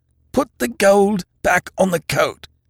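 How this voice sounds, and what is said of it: Stifled, strained voice. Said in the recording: “in a stifled voice”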